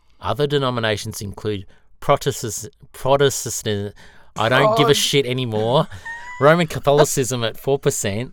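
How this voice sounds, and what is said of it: Australian accent. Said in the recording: “you've got an Australian accent”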